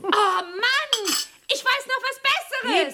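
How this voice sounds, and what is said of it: Shouting. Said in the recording (German): “schrei nicht so”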